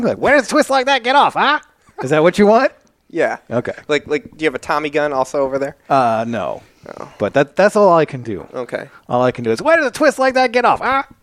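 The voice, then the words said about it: 1940s gangster movie voice. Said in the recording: “40s bad guy gangster”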